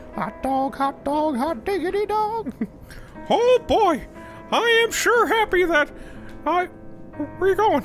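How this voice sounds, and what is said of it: Mickey Mouse cartoon voice. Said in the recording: “my Mickey impersonation”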